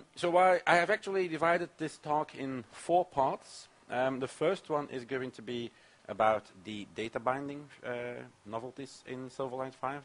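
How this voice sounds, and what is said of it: Congested voice from a cold. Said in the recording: “I have a cold. Maybe you've already seen or heard it”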